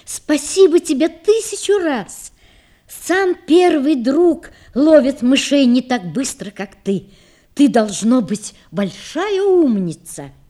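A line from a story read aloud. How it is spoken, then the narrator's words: Woman's heartfelt exclamation. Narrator (Russian): женщина воскликнула от души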